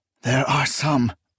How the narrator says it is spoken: Akamian whispered

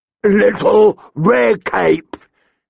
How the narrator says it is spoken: snarled

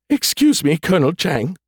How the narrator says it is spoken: said through sniffles, as if the AI had been sobbing

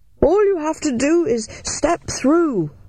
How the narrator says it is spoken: yelled Mycroft above the noise of the machine

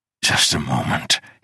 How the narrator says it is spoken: panted

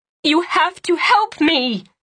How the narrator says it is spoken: Cianne shouted over the rain

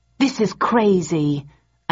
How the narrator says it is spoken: I said angrily

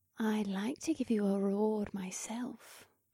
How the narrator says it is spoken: she murmured in my ear

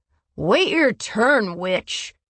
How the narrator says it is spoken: the male grumbled

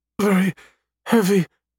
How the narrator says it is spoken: Eve pants

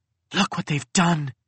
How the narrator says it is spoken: hissed Pressa

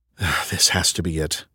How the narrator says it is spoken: I muttered

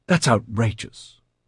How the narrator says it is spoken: Paloma exclaimed

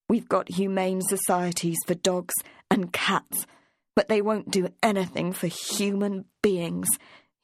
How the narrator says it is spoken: spat out

